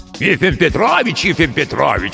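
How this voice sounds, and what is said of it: Mocking imitation of the bodyguard. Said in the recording (Russian): “передразнил”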